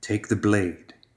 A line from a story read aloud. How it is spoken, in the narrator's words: came the whisper